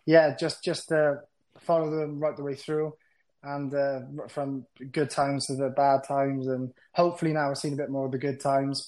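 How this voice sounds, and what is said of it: Welsh accent. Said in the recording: “With the Welsh twang”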